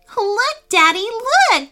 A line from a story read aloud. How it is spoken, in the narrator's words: squealed Hannah with delight